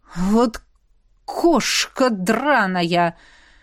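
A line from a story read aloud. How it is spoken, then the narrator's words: Breathed through gritted teeth. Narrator (Russian): Сквозь зубы выдохнул Козловский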